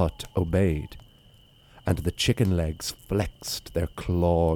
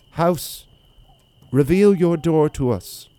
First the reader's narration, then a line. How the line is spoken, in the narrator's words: The little girl called out